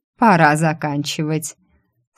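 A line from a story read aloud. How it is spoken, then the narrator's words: Deafening roar. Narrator (Russian): Эйден набрал воздуха в грудь и оглушительно зарычал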